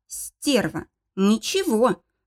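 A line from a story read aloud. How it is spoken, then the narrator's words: Angry smirk. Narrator (Russian): зло усмехнулся мужчина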